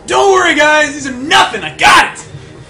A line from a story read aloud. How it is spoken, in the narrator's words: as he's running, he yells out to the others